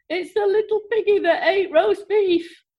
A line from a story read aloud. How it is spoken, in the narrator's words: through her tear-filled eyes and managed to moan